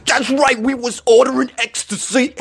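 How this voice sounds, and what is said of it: Poor imitation of another person's voice. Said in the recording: “my awful Tracy Morgan impression ... That's terrible.”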